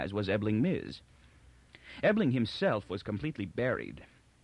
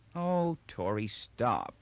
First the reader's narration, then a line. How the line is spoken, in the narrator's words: she said wearily